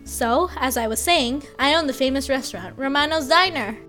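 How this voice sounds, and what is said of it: Put-on American accent. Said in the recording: “let me switch to my American accent.”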